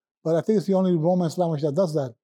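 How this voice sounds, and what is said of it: Puerto Rican accent. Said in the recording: “this guy's got a Puerto Rican accent”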